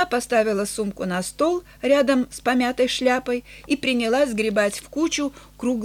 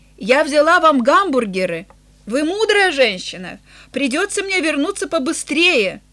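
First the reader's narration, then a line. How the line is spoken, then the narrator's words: Shouted after someone. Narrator (Russian): Она крикнула ему вслед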